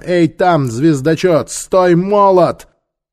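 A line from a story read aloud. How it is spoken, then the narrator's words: Shout to horses. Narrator (Russian): крикнула лошадям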